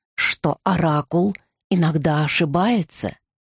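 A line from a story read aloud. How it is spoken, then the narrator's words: Gentle mother's voice. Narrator (Russian): мягко заговорила мама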